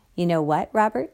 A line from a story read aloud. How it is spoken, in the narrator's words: said